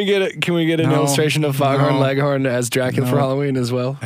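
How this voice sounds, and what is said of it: Usual voice. Nothing is said of it.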